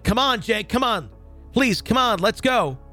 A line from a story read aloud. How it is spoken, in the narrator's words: I started yelling